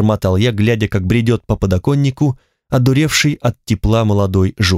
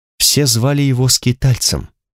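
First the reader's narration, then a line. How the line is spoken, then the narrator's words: Unexpectedly quiet. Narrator (Russian): неожиданно тихо сказала Алана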